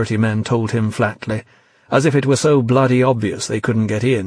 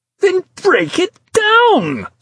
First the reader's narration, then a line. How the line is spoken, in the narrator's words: screamed Dascombe, a note of hysteria creeping into his voice